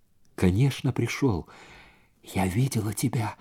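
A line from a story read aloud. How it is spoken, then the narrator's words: Whisper. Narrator (Russian): прошептала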